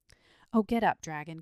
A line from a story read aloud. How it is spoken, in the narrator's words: cried the boy piteously